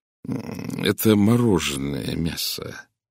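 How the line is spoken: Gentle explanation. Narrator (Russian): мягко объяснил я

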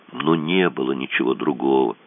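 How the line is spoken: Sad. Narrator (Russian): грустно сказал Кацуба

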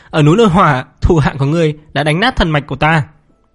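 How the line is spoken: Angry laugh. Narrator (Vietnamese): Triệu Thiên Vũ cười giận dữ

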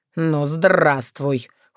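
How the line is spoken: Cold reply. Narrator (Russian): холодно ответил родитель

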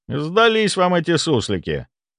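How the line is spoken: Wry snort. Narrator (Russian): хмыкнул я

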